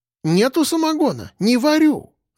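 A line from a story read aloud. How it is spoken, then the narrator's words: Old woman babbling. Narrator (Russian): лепетала старушка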